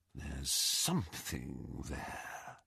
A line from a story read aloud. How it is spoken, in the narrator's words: he whispered